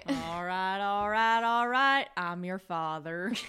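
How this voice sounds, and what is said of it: Matthew McConaughey impression. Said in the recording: “Your accent is Matthew McConaughey.”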